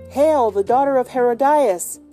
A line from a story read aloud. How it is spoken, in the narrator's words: cried Cronshaw